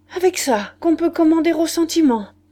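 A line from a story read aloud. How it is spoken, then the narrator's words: Pathetic exclamation. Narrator (French): Il s'écria d'un ton pathétique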